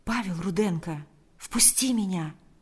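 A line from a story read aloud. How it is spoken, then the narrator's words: Very quiet reply. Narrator (Russian): ответил Павел очень тихо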